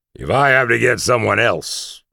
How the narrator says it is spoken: barked the CO

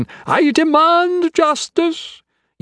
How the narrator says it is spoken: he screamed

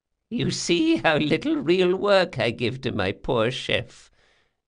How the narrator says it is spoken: said Doña Vorcenza, cackling

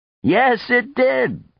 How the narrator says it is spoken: Coyote laughed

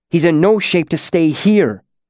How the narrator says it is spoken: Incanus snapped

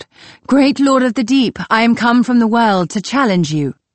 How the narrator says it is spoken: I cried out

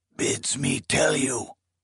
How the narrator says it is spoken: the old man in Gim had rasped

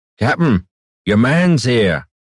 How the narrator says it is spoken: Ander called out

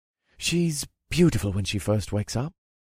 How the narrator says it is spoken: Marty breathed in a wispy, dreamy voice

